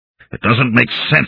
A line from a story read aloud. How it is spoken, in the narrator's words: he growled